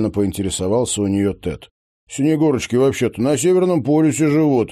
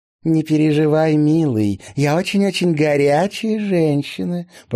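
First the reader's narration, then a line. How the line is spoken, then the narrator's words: Cooing. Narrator (Russian): проворковала блондинка в голубом кокошнике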